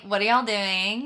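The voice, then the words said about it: Put-on Texan accent. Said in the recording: “you don't have like a Texan accent though... Can you turn on the accent?... Oh yeah, I can turn it on”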